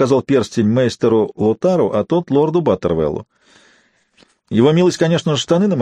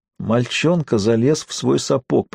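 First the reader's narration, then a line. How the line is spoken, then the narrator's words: Moaning. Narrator (Russian): простонал он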